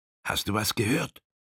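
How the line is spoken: Whisper. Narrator (German): flüsterte Frank dem Vetter zu

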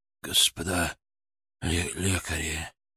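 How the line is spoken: Weak hopeful whisper. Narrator (Russian): раздался слабый, полный надежды шепот

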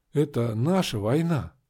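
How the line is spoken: Hoarse, strange voice. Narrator (Russian): Хрипло сказала я, голос был чужим

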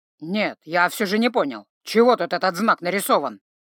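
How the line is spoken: Growl. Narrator (Russian): рыкнул Грым

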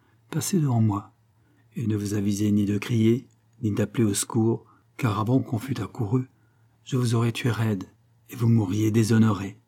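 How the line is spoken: Young man speaking quietly. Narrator (French): dit tout bas le jeune homme

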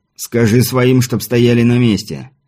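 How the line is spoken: Sharp, curt. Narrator (Russian): резко бросил Виктор

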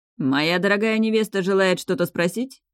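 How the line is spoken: Slightly sarcastic. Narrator (Russian): чуть язвительно произнес Рейдалир

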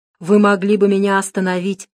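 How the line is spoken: Plain. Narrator (Russian): наконец сказал он

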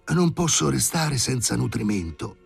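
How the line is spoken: Muttering. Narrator (Italian): prese a borbottare

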